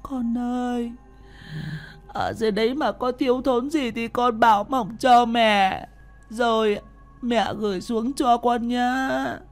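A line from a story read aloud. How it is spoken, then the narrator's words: Old woman sobbing. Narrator (Vietnamese): bà mếu máo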